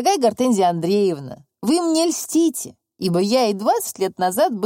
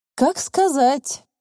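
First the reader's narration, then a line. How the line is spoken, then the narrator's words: Deep sigh, then fervent. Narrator (Russian): глубоко вздохнул Башмачников и с жаром заговорил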